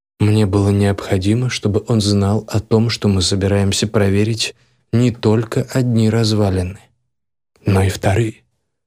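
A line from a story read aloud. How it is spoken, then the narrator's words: Calm. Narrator (Russian): спокойно сказал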